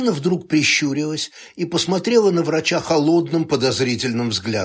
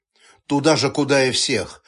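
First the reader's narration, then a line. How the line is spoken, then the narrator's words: Calm. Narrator (Russian): спокойно ответил врач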